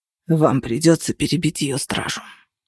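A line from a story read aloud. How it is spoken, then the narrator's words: Hoarse. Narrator (Russian): хрипло сказал Менчерос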